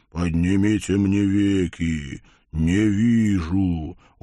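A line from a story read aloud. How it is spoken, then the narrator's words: Deep guttural voice. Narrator (Russian): утробным голосом произнес Вий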